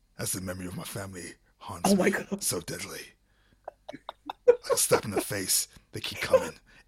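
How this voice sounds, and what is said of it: Gruff dramatic narrator voice. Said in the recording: “I'm just saying words in a gruff voice.”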